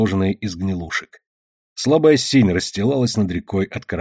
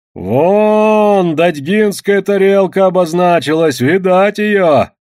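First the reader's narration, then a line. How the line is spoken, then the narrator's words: Shouted from a boat. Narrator (Russian): крикнул Петрован с лодки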